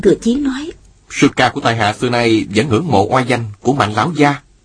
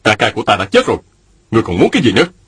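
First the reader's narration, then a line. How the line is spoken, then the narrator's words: Angry. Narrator (Vietnamese): giận dữ nói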